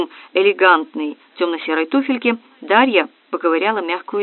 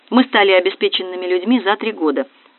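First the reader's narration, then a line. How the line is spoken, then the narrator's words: Calm. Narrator (Russian): спокойно начала Дарья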